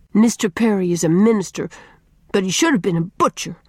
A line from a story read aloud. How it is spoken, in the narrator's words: said Faith bitterly